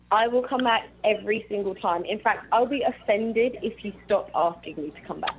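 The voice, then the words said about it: British accent. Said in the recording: “your lovely British accent ... I had to hear it in your accent. I love it.”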